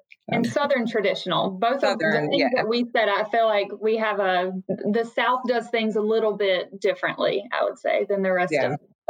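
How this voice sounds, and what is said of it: Southern American accent. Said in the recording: “we can tell by your accent”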